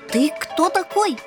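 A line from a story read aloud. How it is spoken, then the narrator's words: Shouting. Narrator (Russian): первым крикнул рыжий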